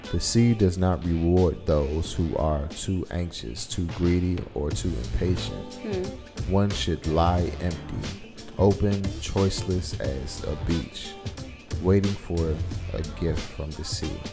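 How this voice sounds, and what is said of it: Radio announcer voice. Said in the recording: “Shout out to your radio voice.”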